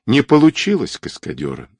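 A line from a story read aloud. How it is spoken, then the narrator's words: Sad. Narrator (Russian): грустно отозвался Баскаков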